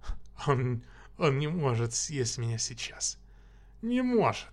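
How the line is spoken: Giggling. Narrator (Russian): Хихикая

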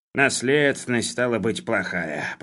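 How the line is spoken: Grumbling. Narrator (Russian): проворчал Хлебоводов

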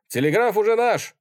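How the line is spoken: Cheerful shout. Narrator (Russian): весело крикнул один

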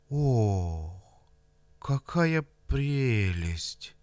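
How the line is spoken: Breathless admiration. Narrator (Russian): Невольно выдохнул Николай Игнатьич

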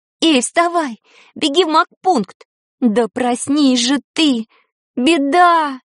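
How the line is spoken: Shouting. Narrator (Russian): закричала Таня

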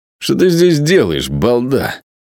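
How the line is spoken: Hoarse sleepy question. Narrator (Russian): сиплым ото сна голосом спросил Джош

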